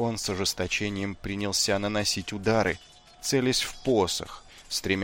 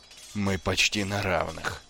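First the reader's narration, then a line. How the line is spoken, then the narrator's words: Breathless exhale. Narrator (Russian): выдохнул князь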